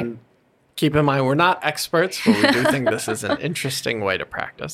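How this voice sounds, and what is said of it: Usual voice. Nothing is said of it.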